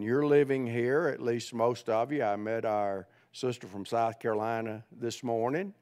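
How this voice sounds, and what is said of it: Southern US accent. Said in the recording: “How many can tell I didn't grow up probably in Ohio ... Anybody tell by my accent? ... I grew up in Central Alabama”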